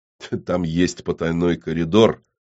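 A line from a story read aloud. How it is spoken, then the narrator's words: Smirking grunt. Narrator (Russian): хмыкнул заказчик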